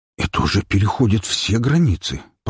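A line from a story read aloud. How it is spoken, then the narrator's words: Muttering. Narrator (Russian): пробормотал Блинкинель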